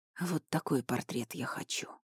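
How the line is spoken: Hoarse. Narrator (Russian): сказал хрипло

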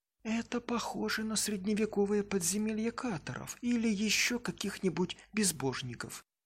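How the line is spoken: Whisper. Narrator (Russian): прошептала Элизабет

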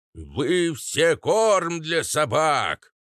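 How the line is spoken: Loud parrot voice. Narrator (Russian): громко сообщил попугай

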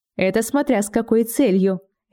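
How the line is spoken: Snide smirk. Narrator (Russian): ехидно усмехнулся Дан

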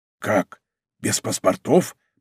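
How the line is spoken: Whisper. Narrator (Russian): прошептал он

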